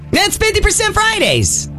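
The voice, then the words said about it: Loud, excited shouting voice. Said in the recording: “Quit talking so loud... You're over there screaming and yelling.”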